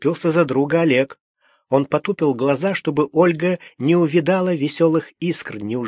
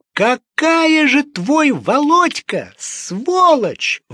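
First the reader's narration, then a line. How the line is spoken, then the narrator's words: Loud scream. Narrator (Russian): в голос закричала Ольга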